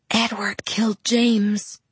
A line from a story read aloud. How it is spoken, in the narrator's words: I whispered